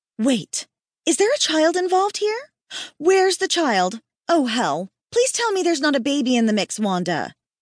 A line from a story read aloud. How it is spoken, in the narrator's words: She paused and then gasped